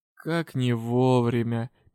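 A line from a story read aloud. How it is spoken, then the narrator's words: Sad remark. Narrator (Russian): печально заметил магистр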